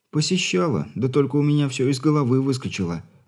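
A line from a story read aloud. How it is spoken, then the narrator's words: Sighing female voice. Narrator (Russian): вздохнула Травина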